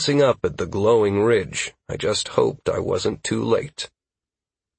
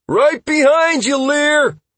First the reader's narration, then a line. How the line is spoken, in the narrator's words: Constantine shouted